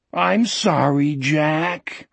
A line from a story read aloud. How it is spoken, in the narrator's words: Wolf said miserably